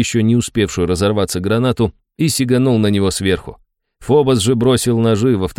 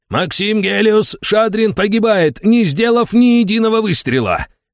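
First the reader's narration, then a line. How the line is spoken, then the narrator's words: Full-throated roar. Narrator (Russian): Разрывая глотку, проревел комментатор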